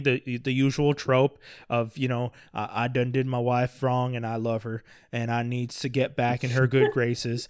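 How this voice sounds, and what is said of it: Mocking down-country boy accent. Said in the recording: “I'm doing this accent. This isn't the accent he has in the movie, by the way. I'm just making fun of the idea that... every one of those like down country boys”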